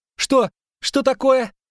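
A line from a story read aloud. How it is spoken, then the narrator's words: Shouting. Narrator (Russian): крикнул Лютик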